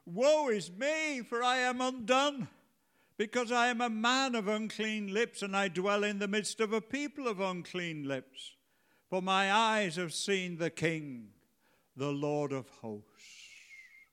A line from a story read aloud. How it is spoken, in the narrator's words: Isaiah cried out when he saw the vision of God